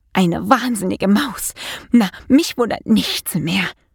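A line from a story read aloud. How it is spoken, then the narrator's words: Murmured. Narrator (German): murmelte sie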